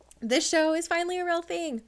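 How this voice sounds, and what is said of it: Excited, upbeat voice. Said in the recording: “I sound excited”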